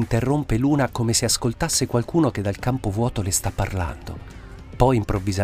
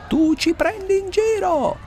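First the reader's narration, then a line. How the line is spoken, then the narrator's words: Shout. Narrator (Italian): urla a Luna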